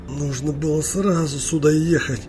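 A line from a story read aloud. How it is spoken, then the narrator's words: Reproachful hiss. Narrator (Russian): укоризненно прошипел Чарли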